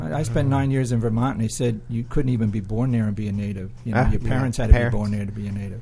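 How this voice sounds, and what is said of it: New York City accent. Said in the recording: “can't tell by my accent. Everybody else says New York City.”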